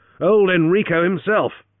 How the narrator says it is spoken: Henry exclaimed

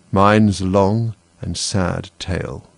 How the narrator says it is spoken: said the mouse, sighing

